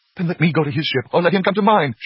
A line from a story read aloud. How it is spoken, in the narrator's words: she cried, her cheeks flushing and paling